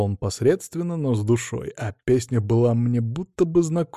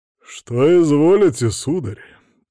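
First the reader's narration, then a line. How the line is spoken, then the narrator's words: Deep bass voice. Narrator (Russian): пробасил официант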